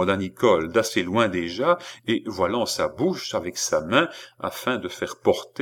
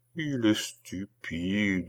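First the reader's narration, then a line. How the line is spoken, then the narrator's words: Murmured. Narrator (French): murmura Nicole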